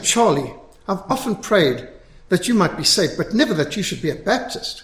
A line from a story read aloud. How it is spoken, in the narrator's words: his mother exclaimed